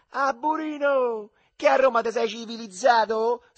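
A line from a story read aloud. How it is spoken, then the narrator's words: Shrieked. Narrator (Italian): strillò Alduccio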